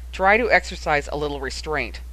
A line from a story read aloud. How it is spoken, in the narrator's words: interjected their father harshly